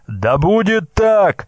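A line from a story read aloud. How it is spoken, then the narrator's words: Shouted reply. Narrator (Russian): прокричал в ответ брязга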